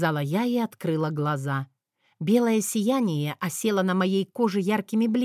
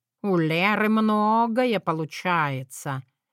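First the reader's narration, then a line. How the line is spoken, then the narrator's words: Drawling. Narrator (Russian): протянул Мэтью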